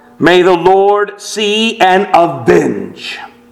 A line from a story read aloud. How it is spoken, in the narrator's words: As Zechariah was dying, he cried out